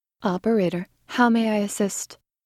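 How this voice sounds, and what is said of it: Sultry, seductive voice. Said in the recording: “in my most sultry voice”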